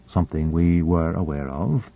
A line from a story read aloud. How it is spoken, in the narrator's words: said Boronova gravely